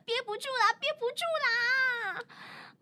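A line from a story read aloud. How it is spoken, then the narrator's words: Shouting. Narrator (Chinese): 明一嘴里大喊道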